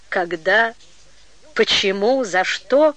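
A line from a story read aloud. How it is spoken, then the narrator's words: Sad questioning. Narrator (Russian): печально переспросила Анфиса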